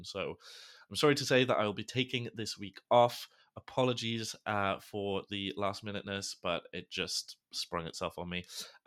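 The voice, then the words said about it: Sick, unwell-sounding voice. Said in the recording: “you can probably tell from my voice. I am sick as a dog.”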